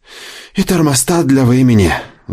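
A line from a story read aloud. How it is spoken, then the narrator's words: Sighing. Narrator (Russian): вздохнул Дэйв Хёрст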